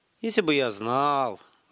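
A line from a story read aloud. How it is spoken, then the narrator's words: Sighing. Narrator (Russian): вздохнул Столяров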